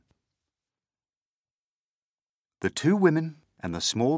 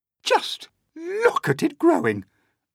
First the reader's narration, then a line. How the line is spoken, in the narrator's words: Aunt Spiker cried